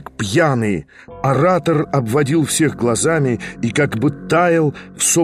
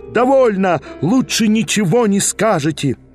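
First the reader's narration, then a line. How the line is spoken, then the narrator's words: Crowd yelling. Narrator (Russian): Вопили, даже иные из дам кричали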